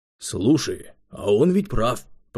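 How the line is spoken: Thoughtful. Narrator (Russian): произнес Симонов задумчиво

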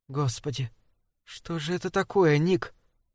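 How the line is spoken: Whisper. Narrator (Russian): прошептала Лорел

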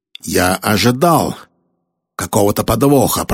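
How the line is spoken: Growl. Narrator (Russian): прорычал Кирби

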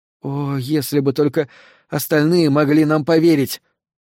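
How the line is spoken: Exclamation. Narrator (Russian): воскликнула Натали

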